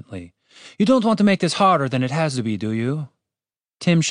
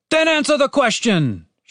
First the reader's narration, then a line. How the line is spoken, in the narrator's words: shouted Diego